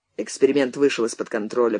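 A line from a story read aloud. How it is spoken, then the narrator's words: Muttering, turned away. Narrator (Russian): пробормотал наставник, отвернувшись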